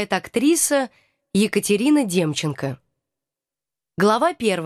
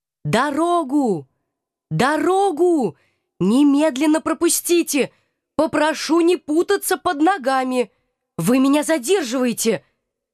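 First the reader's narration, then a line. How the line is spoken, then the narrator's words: Unnaturally loud yelling. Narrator (Russian): Неестественно громким голосом вопила я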